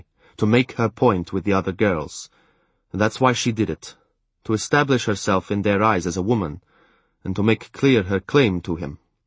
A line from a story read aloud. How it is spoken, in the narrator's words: he told me sternly